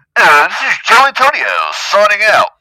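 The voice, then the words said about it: Radio announcer voice. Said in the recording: “go in my radio voice”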